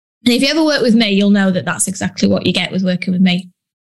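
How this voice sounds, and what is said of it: Northern English Yorkshire accent. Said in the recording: “I'm from the north of England. You've probably not gathered. I've got no accent, have I? Good old Yorkshire.”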